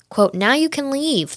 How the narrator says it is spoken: the woman shouts

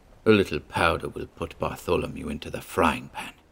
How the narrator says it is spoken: mumbled maliciously

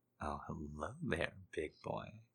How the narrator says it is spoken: I whisper

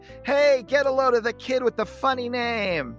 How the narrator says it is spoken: this kid yells to the entire camp

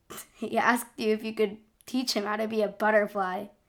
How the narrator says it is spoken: chuckled

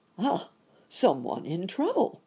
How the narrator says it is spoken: cried the rabbit gentleman

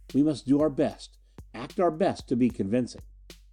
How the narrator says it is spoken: Her voice whispered

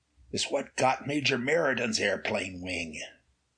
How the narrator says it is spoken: Ray whispered

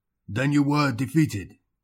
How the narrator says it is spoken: the aged quadruped grunted

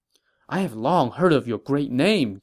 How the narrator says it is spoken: Jiang Gan said excitedly

